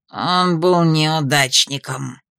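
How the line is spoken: Growl. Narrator (Russian): рыкнул Тадеуш

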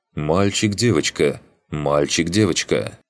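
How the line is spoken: Stern mother forestalling objections. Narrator (Russian): Заранее пресекая мои возражения, мама строго произнесла

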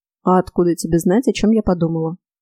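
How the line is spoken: Dry question. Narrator (Russian): сухо поинтересовалась

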